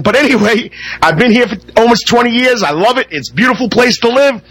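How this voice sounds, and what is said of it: Northern US New York accent. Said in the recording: “I can't get rid of my northern accent”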